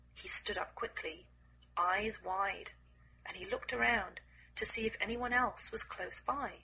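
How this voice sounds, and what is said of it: Slightly croaky voice. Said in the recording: “my voice is still a bit croaky”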